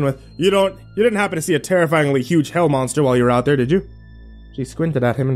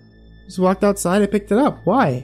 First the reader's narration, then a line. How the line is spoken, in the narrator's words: The annoyance in her voice had ticked up a notch